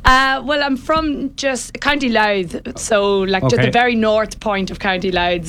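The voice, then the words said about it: Northern Irish twang. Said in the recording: “I can hear the accent ... We northern twang.”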